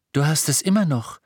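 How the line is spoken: Calling out. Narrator (German): rief Hermine

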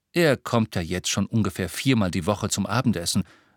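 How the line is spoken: Plain. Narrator (German): sagte Harry

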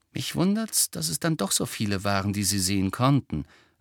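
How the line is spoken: Plain. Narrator (German): sagte Ron

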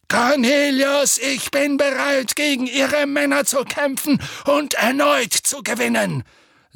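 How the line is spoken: Thundering voice. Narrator (German): sagte Dumbledore mit donnernder Stimme

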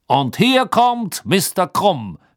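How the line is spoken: Called out. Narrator (German): rief Bergman

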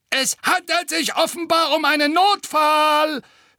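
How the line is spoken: Gargoyle's mocking sneer. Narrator (German): höhnte der zweite Wasserspeier

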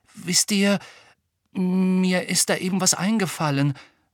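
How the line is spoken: Low muffled voice. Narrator (German): sagte Ron mit gedämpfter Stimme

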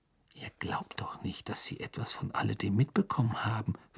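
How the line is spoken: Whispered. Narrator (German): flüsterte

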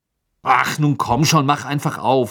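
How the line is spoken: Angry. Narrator (German): sagte er wütend

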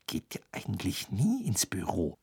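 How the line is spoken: Sudden whisper. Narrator (German): flüsterte Hermine plötzlich

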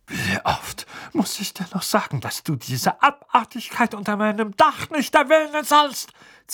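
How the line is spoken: Furious hiss. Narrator (German): zischte er, das Gesicht von der Farbe einer reifen Pflaume

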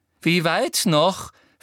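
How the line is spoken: Angry question. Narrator (German): fragte Umbridge hinter ihm wütend

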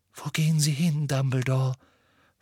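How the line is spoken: Whisper. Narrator (German): flüsterte Professor McGonagall

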